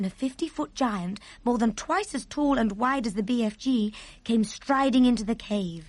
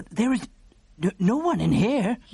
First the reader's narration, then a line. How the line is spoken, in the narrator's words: he stammered